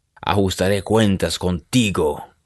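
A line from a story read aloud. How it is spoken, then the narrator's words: Growled. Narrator (Spanish): gruñó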